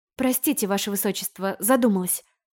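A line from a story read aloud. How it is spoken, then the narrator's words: Mumbling. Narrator (Russian): промямлила я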